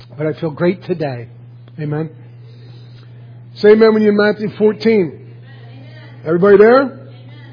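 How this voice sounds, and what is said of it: Hoarse, worn-out voice. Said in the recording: “I'm sick all week, so my voice is always shot.”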